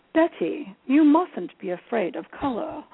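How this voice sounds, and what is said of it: Attempted British accent, not very good. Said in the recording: “I can't do a British accent very well, but I'll try.”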